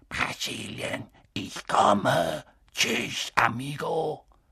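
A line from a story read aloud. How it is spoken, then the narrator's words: Soft hissing voice. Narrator (German): eine leise, zischende Stimme sagte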